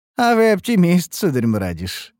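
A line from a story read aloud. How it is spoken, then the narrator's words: Laughing. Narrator (Russian): рассмеялся Ромери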